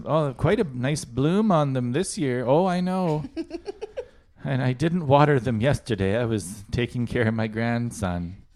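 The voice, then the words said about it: Old lady voice. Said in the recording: “old lady voice”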